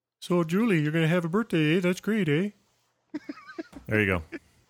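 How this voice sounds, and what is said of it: Put-on exaggerated Canadian accent. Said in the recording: “in the sexiest Canadian accent you guys can do ... You sound like a Muppet. ... it's obviously kind of a Mackenzie-esque sort of voice ... It's also kind of a North Dakota, South Dakota”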